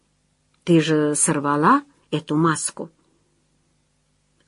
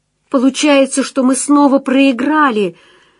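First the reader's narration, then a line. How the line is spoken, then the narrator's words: Pained cry. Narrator (Russian): выкрикнула она с болью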